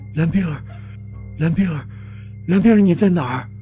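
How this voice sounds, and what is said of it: Quiet, trembling voice. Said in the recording (Chinese): “小声却不容忽略的颤音”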